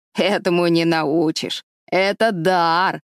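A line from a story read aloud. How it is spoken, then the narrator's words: Solemn. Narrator (Russian): торжественно сказал конопляный человек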